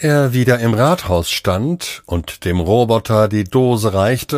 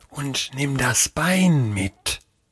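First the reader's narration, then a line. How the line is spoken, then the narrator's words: Whispering. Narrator (German): sagte, beugte sich hinab und flüsterte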